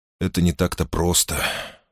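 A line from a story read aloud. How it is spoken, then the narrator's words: Sighing. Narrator (Russian): вздохнул Мусса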